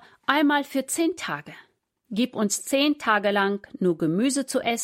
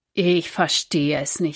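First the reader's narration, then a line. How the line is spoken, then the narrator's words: Plain. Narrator (German): sagte er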